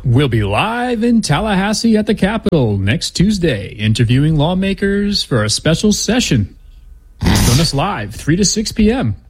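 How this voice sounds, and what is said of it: Radio announcer voice. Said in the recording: “Is that your announcer voice? That's actually pretty good.”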